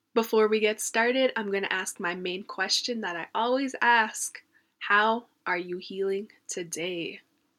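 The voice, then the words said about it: Sick, unwell-sounding voice. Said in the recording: “right now I'm sick, as you can tell by my voice.”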